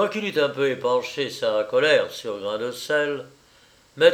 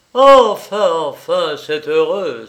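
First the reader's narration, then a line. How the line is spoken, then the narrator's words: Exclaiming. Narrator (French): s'écria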